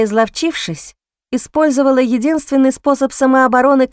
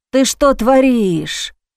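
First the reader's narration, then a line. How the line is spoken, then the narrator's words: Groaning in pain. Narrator (Russian): Простонал скрючившись и зажимая руками промежность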